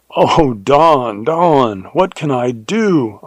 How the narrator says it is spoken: I cried in horror

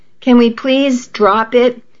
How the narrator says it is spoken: I begged

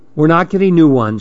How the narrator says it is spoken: she said

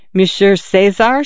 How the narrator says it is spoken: she stammered, as if she had known him a long time

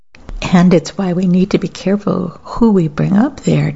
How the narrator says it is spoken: Tim replied with a single bark of laughter

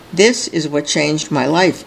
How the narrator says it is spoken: says White

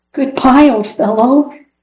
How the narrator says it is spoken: he called out sadly, sure that Fritz was gone forever

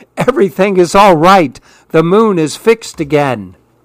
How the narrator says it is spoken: the smallest monkey called out happily

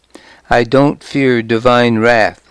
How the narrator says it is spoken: she said

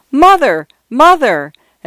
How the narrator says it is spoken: shouted

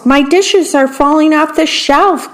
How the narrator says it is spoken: cried the worm

